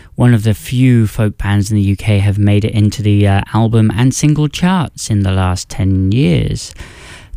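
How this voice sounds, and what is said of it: British accent. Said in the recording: “As you can tell by my accent, that is exactly where I'm from ... my home country of the United Kingdom”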